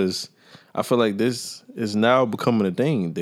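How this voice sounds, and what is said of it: Usual voice. Nothing is said of it.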